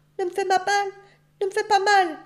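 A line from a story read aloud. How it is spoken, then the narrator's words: Crying out. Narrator (French): s'écria-t-elle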